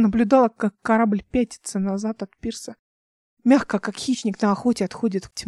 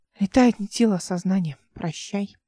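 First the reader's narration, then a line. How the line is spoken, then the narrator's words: Quiet. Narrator (Russian): тихо сказала она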